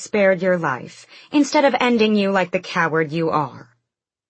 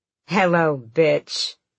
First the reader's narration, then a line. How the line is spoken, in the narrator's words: Ansel purred